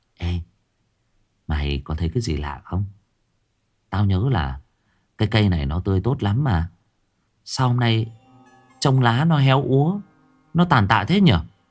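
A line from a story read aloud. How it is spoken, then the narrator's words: Whisper. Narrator (Vietnamese): thì thầm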